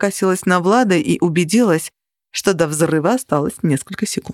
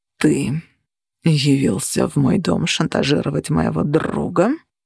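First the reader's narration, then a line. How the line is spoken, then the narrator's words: Growling. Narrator (Russian): прорычал Цепиш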